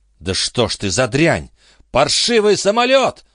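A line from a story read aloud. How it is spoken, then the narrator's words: Shouted. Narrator (Russian): закричал он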